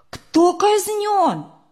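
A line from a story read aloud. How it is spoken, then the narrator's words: Sudden exclamation. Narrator (Russian): вдруг Сережа воскликнул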